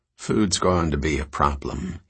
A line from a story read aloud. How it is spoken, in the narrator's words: he said quietly